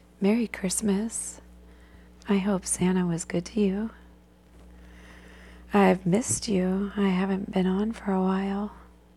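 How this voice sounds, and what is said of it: Sick-sounding voice. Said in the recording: “I've been sick, so you'll have to excuse my voice.”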